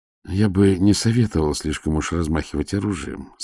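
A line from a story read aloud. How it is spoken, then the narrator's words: Plain. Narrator (Russian): сказал старший следователь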